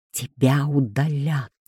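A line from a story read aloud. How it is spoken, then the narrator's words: Hiss. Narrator (Russian): Прошипел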